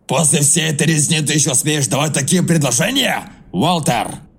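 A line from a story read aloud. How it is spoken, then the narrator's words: Loud exclamation. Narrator (Russian): Анхель громко воскликнул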